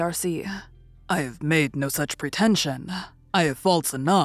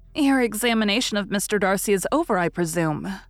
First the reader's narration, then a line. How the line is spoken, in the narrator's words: said Miss Bingley